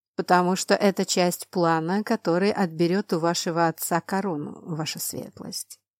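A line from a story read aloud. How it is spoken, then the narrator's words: Calm reply. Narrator (Russian): спокойно ответила женщина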